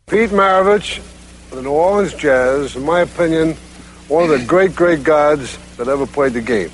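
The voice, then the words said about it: Brooklyn accent. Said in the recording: “Red Auerbach ... I love his Brooklyn accent.”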